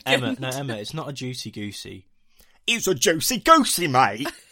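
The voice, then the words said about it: Put-on EastEnders London accent. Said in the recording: “You genuinely just sound like someone from EastEnders.”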